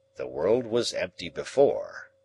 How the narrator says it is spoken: Challenger answered gravely

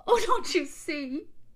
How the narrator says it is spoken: sobbed Kissman hysterically

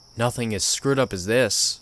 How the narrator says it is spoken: I replied

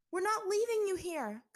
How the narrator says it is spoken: Katara yelled to him

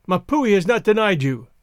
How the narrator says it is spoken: cried

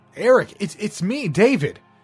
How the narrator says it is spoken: I yelled, but the thunder drowned out my voice

